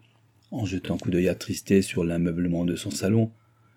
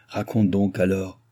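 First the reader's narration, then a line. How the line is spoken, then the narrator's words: Old man grumbling. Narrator (French): grommela le vieillard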